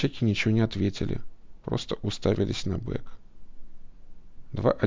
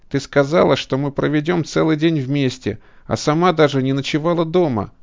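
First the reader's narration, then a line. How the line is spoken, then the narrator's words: Shouted outburst. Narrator (Russian): выкрикнул Пол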